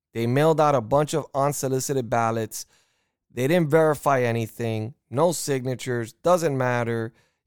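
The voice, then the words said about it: Upset, angry ranting voice. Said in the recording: “I'm sorry if I sound upset, and I'm sorry if I sound like an insane individual, but I'm mad. I'm upset.”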